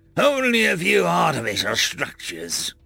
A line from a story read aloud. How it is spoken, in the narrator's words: Zahn grunted